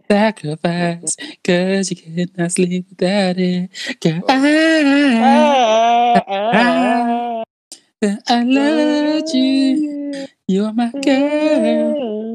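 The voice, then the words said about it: Strained, strangled-sounding singing. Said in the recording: “Your vocals are not dumb ... you sound like a cock being strangled”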